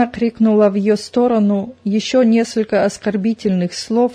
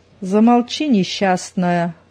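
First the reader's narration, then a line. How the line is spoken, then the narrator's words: Menacing retort. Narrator (Russian): грозно отозвалась Зина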